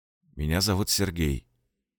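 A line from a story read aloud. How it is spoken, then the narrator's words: Quiet introduction. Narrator (Russian): тихо представился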